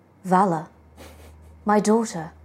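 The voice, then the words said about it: Character voice, slightly too high. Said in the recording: “We'll do an impression of Callous Starbane. ... It's good, but it's a little high.”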